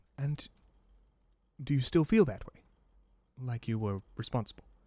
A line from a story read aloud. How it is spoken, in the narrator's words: Sun asks calmly